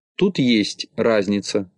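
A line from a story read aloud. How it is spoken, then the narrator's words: Plain. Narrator (Russian): ответил Тюбик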